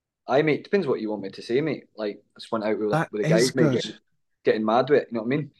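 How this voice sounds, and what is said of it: Put-on Scottish accent. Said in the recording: “I think my Scottish accent is pretty.”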